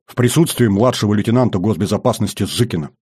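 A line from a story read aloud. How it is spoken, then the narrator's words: Hurried, alarmed addition. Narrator (Russian): Заметив жуткую гримасу особиста, торопливо добавил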